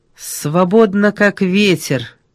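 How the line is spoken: Angry. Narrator (Russian): сердито сказала Ольга

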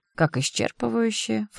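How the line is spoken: Scornful snort. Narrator (Russian): фыркнула подруга

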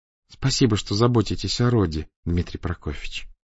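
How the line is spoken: Tender, affectionate. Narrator (Russian): ласково молвила она

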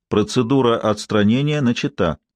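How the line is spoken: Calm electronic announcement. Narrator (Russian): электронный голос спокойно объявил

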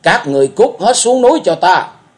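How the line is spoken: Roar. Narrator (Vietnamese): ma thượng ma gầm lên

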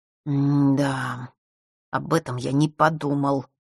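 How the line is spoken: Annoyed boy's mutter. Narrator (Russian): с досадой пробормотал мальчик

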